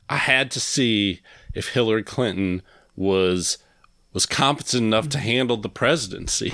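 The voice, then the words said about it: Put-on Southern accent. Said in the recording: “you gave Don Jr. a Southern accent”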